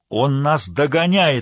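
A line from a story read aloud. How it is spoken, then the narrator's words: Shouted. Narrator (Russian): крикнул генерал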